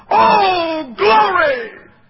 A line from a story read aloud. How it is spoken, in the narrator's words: shout